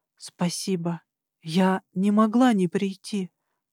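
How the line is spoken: Whispered against lips. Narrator (Russian): прошептала ему в губы

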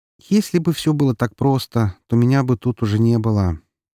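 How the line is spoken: Smiling, not very cheerful. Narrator (Russian): улыбнулась, но вышло это как-то не особо весело

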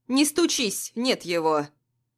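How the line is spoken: Stern neighbor. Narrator (Russian): Строго говорит соседка

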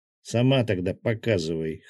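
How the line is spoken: Snort. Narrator (Russian): хмыкнул Гинзо

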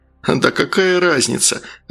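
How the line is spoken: Laughing. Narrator (Russian): рассмеялся Валера

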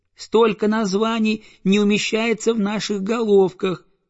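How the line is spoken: Squeaky chorus of goslings. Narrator (Russian): запищали гусята

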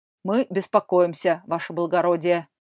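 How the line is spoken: Deep bass voice. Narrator (Russian): басил он

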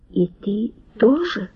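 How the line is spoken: Whisper. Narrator (Russian): шепнула она

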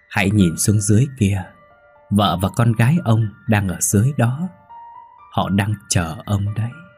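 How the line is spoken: Sweet voice. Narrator (Vietnamese): Mây ... nói bằng giọng ngọt ngào

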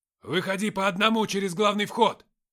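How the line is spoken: Barked. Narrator (Russian): рявкнул Яран

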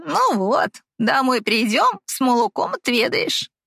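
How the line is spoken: Laughing. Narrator (Russian): рассмеялась Елизавета

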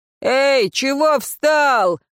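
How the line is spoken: Coachman shouting. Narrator (Russian): крикнул кучер

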